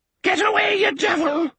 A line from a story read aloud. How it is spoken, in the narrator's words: the cracked voice screeched